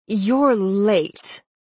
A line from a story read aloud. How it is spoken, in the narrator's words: Dorothy said icily